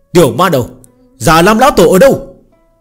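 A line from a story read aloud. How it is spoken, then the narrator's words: Cold, powerful shout. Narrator (Vietnamese): một đạo khí cơ cường đại lạnh thấu xương hét lớn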